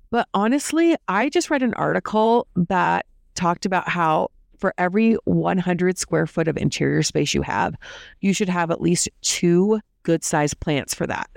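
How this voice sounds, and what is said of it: Sick, congested voice. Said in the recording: “As you guys can probably tell from my voice, we've been having the crud and the colds”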